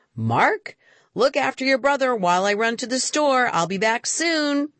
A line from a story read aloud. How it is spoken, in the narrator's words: Mom shouted up from downstairs